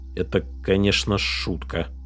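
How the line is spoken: Mumbling. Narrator (Russian): пробормотал Джонни

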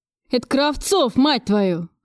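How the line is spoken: Roaring. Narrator (Russian): взревел директор

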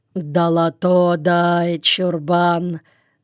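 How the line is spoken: Calm but very gloomy. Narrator (Russian): Спокойно, но очень мрачно сказала особа

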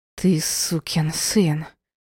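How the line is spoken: Furious hiss. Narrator (Russian): прошипела с яростью

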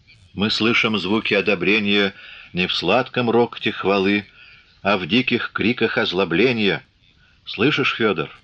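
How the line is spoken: Smiling whisper. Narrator (Russian): улыбаясь, шепнул

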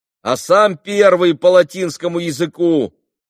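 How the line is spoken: Boy shouting from crowd. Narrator (Russian): крикнул из толпы один мальчик

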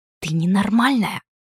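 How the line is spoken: Low catlike hiss. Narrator (Russian): собственный голос упал до кошачьего шипения

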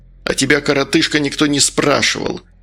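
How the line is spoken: Angry reply. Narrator (Russian): зло отозвался Медовар

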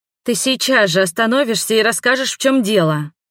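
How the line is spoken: Impatient growl. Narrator (Russian): прорычала, теряя терпение

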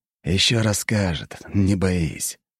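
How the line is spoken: Promising with a sigh. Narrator (Russian): пообещал Жемчужников и вздохнул

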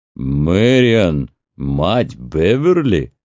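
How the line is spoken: Loud laughter. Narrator (Russian): он расхохотался

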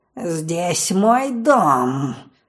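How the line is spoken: Angry growl. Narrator (Russian): гневно зарычала она

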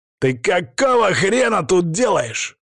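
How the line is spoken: Yelling. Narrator (Russian): заорал он

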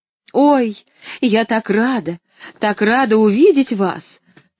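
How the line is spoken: Shouted right into ear. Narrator (Russian): крикнула Поллианна прямо в ухо Нэнси

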